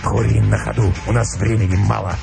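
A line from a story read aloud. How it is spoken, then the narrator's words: Curt, hoarse. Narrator (Russian): ответил волк отрывисто и хрипло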